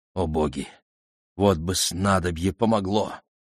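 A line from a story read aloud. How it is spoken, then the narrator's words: Muttering under breath. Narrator (Russian): бормотал он себе под нос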